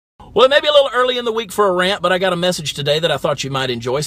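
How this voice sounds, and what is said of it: Southern American accent. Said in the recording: “he talks about his Southern accent and his Southern dialect of English”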